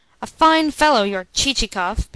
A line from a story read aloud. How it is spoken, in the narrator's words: began the prince angrily